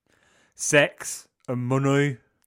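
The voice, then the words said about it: Imitates another person's voice. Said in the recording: “my Chris Lowe impression”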